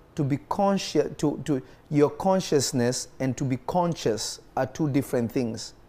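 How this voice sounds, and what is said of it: Speaks with a noticeable accent. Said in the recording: “I'm pronouncing them similar because of my accent”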